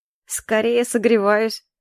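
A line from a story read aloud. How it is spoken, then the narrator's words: Wry snort. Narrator (Russian): Хмыкнул Ильфорте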